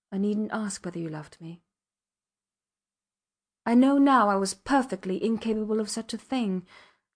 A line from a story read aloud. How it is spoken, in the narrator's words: she said calmly